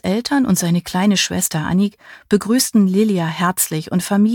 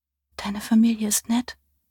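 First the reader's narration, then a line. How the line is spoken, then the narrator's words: Sleepy murmur. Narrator (German): murmelte sie, bevor ihr die Augen zufielen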